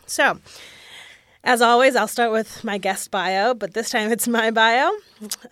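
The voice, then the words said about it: Voice sounds off, allergy-affected. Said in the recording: “my voice sounds weird this week, it's because allergies are really high”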